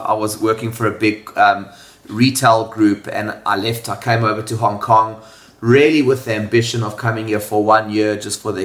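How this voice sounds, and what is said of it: South African accent. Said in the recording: “I was born in South Africa. If you can't tell from the accent, it's a bit of a giveaway.”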